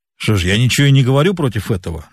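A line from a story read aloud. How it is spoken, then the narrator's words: Grumbling. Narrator (Russian): заворчал боцман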